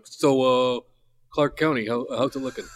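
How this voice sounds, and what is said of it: Imitates another person's voice. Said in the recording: “Is that a good impression of your uncle? ... Not quite.”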